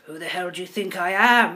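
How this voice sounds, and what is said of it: Put-on Dutch accent. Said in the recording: “So my best Dutch accent.”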